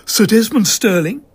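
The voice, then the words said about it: Mannish, clipped, direct female voice. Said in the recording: “Her mannish voice was clipped and direct”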